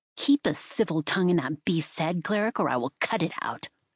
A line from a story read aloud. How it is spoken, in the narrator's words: she snapped